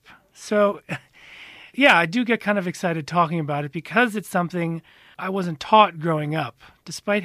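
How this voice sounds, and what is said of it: American accent. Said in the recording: “I can hear there's an accent ... I am American”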